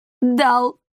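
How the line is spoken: Sobbing. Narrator (Russian): всхлипнул Николаус

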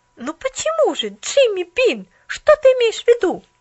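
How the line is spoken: Exclamation. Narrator (Russian): воскликнула Поллианна

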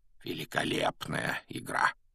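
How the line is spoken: Quiet, private. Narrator (Russian): негромко, чтобы его мог слышать только Гарри, произнес Дамблдор

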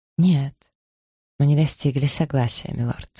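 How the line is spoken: Gentle. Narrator (Russian): сказала она мягко

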